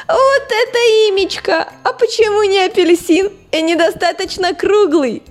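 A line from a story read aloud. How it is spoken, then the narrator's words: Laughing merrily. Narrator (Russian): весело смеялся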